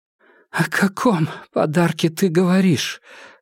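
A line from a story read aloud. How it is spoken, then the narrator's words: Hoarse question. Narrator (Russian): хрипло спросила Изольда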